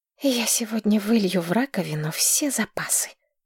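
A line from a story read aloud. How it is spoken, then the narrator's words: Quiet. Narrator (Russian): тихо сказала Маргарет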